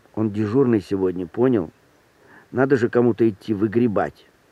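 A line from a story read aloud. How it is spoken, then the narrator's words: Whispered explanation. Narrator (Russian): Кто-то кому-то объяснял шепотом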